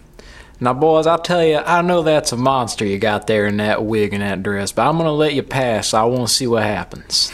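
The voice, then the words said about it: Put-on Southern lawyer accent. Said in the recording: “the southern lawyer voice ... a southern accent”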